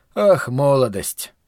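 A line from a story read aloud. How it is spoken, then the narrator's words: Muttered. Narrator (Russian): пробормотал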